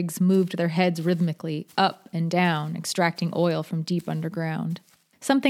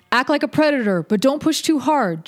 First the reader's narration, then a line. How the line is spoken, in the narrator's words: John called out